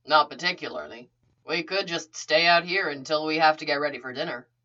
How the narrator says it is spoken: he said

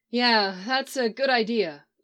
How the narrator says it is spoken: Iris agreed with a sigh

